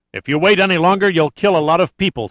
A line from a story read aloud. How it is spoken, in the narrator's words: said Metcalf urgently